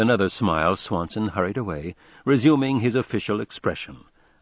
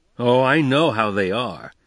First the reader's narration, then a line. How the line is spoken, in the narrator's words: broke out Dick irritably